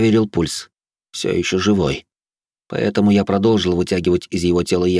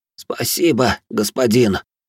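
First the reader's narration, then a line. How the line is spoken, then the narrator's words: Moaning. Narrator (Russian): простонал он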